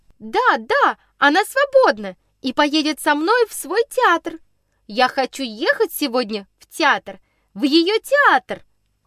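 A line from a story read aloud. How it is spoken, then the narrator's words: Loud cheerful declaration. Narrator (Russian): шумно и весело заявила она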